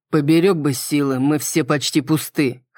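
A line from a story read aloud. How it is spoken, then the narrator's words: Snorting reply. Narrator (Russian): хмыкнул в ответ Крис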